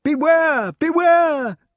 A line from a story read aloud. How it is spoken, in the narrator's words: cried all the retainers, fishwives, falconers, farriers, fletchers, and other well-wishers who were assembled within